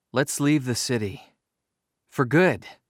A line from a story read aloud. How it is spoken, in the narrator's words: Sammy suggested calmly